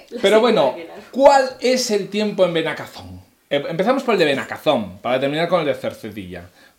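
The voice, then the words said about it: Radio announcer voice. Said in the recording (Spanish): “voz de locutora”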